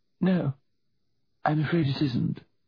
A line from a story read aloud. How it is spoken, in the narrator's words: she said, her voice quivering